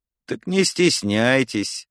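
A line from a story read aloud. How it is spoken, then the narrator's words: Tired, curt. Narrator (Russian): устало бросила Лара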